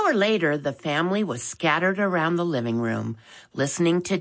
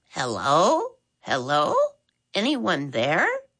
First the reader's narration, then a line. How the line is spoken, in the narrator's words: a voice loudly squeaked